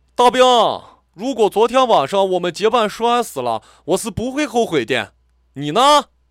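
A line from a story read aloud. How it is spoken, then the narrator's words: Loud. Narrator (Chinese): 他大声地说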